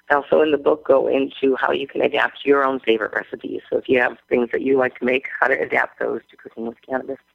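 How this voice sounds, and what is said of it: Hoarse, fading voice. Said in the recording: “I'm losing my voice today.”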